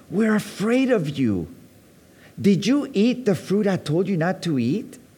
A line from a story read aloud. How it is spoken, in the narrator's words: God asked